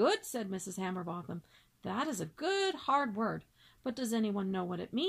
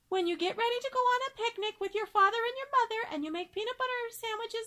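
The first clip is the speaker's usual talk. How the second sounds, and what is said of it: Very small, high-pitched child's voice. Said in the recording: “In a very small, high voice”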